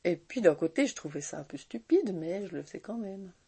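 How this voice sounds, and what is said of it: Strong regional Swiss French accent. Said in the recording (French): “j'avais l'accent de Châtelois, hein, parce que vous savez que j'ai un bon accent de Châtelois”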